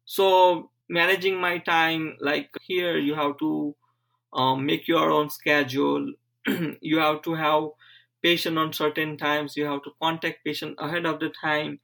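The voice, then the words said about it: Speaks with a slight foreign accent. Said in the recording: “I had very heavy accent at that time. I know you can probably see still some accent right now”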